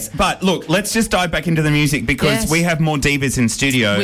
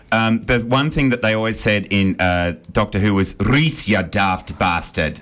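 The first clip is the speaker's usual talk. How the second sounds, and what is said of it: Put-on Welsh accent. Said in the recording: “Can you say that in your Welsh accent again?”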